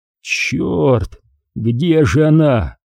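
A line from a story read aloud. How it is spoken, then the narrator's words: Hoarse strained voice. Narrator (Russian): севшим голосом произнес Крис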